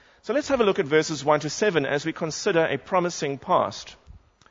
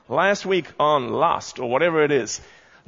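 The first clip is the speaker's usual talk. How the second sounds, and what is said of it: Put-on American accent. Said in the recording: “is that a good American accent, Mark?”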